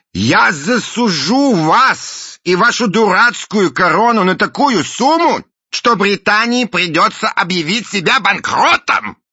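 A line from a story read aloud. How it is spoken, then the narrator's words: Shout. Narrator (Russian): крикнул мистер Буль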